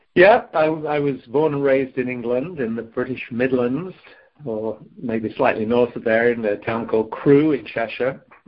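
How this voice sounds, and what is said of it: Slight English accent. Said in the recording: “I detect a bit of an accent”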